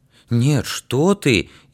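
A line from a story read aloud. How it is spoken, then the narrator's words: Frightened, sincere. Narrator (Russian): Испуганно и честно сказал Игнатик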